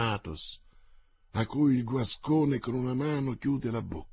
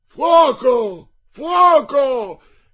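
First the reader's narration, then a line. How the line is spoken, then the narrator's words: Shouting. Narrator (Italian): gridava Mordaunt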